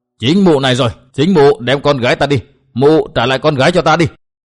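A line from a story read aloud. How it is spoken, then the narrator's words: Angry shout. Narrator (Vietnamese): Vân Đạt bỗng trông thấy âm bà liền giống lên một tiếng, quát bảo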